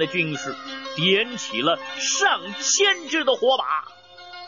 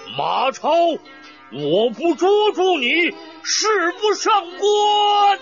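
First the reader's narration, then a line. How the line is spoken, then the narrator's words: Loud shout. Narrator (Chinese): 张飞高声叫道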